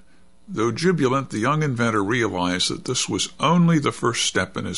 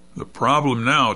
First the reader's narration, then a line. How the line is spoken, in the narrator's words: Tom said